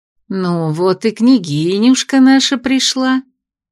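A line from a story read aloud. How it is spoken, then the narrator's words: Affectionate tender tone. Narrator (Russian): ласково сообщила Костина малышу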